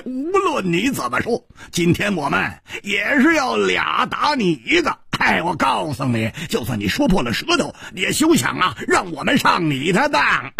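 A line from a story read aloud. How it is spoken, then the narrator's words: Laughing loudly. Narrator (Chinese): 蝴蝶花大笑着说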